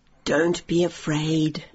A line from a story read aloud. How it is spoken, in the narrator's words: said the old woman, who looked kindly